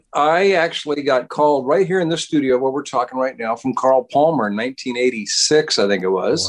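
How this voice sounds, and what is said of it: American accent. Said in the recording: “You're obviously American, as we can tell from your accent”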